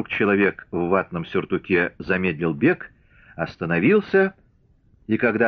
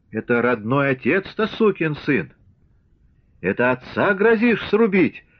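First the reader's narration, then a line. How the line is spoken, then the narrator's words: Cracking falsetto shout. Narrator (Russian): Срывающимся фальцетом закричал он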